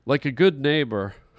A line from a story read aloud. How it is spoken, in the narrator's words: he laughed to himself